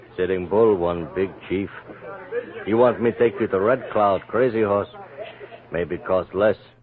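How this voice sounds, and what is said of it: Unconvincing put-on Native American accent. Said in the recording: “the least convincing Native American accent in the world ... Just how bad that accent sounds.”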